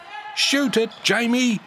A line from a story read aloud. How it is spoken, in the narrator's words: shouted Coach Wilson